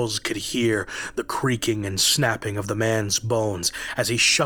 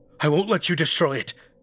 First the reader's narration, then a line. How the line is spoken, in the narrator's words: Charles cried out